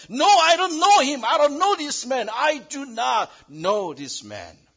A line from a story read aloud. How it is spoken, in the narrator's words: When a slave girl challenged him, not one time, but three times, he yelled